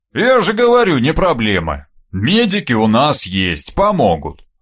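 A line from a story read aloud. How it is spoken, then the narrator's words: Reply with a snort. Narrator (Russian): ответил тот и хмыкнул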